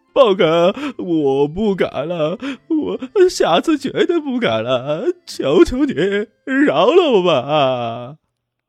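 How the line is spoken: Tearful frightened pleading. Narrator (Chinese): 光头王顿时心中一颤，带着哭音道

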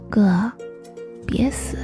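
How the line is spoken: Sleepy mumble. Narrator (Chinese): 他在睡梦中小声嘟囔

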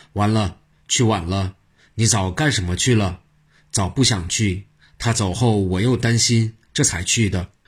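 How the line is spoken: Mournful lament. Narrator (Chinese): 元公主跺足哀叹

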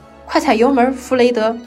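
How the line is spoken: Urgent shout. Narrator (Chinese): 罗恩马上喊道

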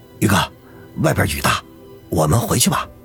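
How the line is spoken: Low voice. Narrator (Chinese): 吕明便低声的说道

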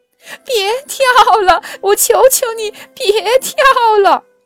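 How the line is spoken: Crying. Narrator (Chinese): 开伦哭着说

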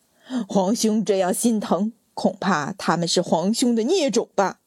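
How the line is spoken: Sneer into wild laughter. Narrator (Chinese): 淳于昌的冷笑变成猖狂的大笑

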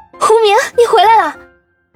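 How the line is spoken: Surprised exclamation. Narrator (Chinese): 王笑笑忍不住惊呼道

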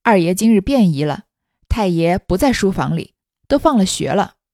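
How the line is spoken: Cheerful, grinning. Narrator (Chinese): 墨雨笑嘻嘻的跑来迎头道

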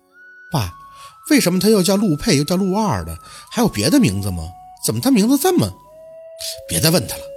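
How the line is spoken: Through gritted teeth. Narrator (Chinese): 还是咬牙问出

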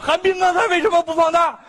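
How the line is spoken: Sudden shout. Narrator (Chinese): 突然大喊一声

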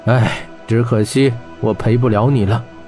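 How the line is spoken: Sighing. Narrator (Chinese): 霍真叹口气道

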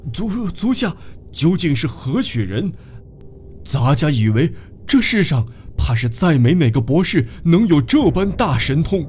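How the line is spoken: Frightened, trembling question. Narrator (Chinese): 雷普罗保斯好不惊恐，不禁颤声问道

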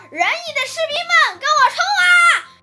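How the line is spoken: Shouting. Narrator (Chinese): 宋襄公喊道

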